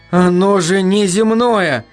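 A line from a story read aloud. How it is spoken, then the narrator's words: Sudden sigh. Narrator (Russian): вздохнул он неожиданно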